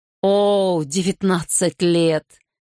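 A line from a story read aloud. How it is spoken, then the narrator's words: Sighing. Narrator (Russian): Гарри вздохнул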